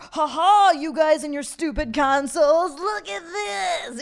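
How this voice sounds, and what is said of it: Weird taunting voice. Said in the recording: “What a weird voice to taunt your friends in, too.”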